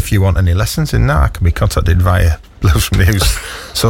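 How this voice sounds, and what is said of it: Usual voice. Nothing is said of it.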